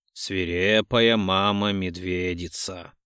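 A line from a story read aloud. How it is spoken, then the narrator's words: Hoarse breathy exhale. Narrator (Russian): Хрипло выдыхает сладкий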